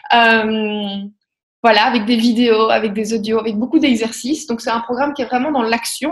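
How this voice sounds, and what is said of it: Slight Belgian French accent. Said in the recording (French): “avec mon petit accent belge”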